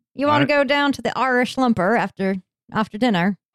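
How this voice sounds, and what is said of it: Inconsistent attempted Irish accent. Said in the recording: “I'm not doing the right accent ... you are all over the board with that. I went from British to Australian, back to American ... I think I heard Swahili in there somewhere.”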